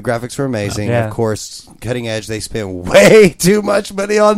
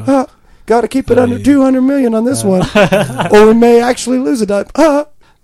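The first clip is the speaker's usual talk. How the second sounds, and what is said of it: Poor Mickey Mouse voice impression. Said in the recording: “that was the worst Mickey Mouse impression I've ever heard... Actually, I was impersonating you”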